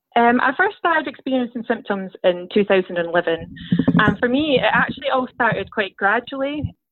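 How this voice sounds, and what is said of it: Scottish accent. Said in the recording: “heard a little bit about your accent ... I'm from Scotland”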